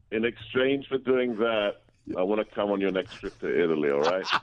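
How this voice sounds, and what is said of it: Big voice, non-American accent. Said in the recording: “glorious accent. Yes. Not a New York accent at all ... he's got that big voice”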